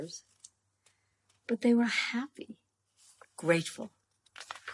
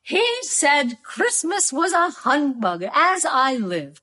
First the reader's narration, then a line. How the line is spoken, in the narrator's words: cried Scrooge's nephew